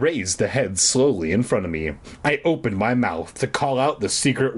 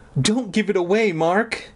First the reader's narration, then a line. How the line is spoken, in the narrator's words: Aunt Benna pleaded